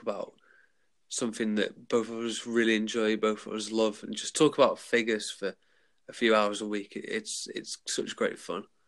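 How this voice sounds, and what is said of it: Smooth British accent. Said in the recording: “a very smooth British accent”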